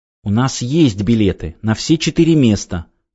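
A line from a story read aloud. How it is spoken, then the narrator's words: Angry indignant wife. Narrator (Russian): зло негодующе отозвалась со своей полки жена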